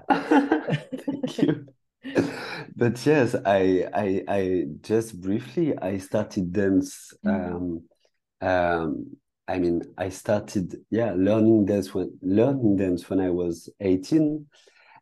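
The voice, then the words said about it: French-accented English. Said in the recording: “sorry for my French accent ... a beautiful accent like that”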